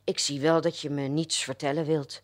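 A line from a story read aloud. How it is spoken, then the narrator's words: Disappointed mutter. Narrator (Dutch): mompelde hij teleurgesteld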